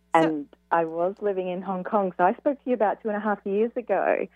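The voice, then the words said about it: Australian accent. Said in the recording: “what's this accent from? Australian accent. ... it's beautiful. ... it's really beautiful.”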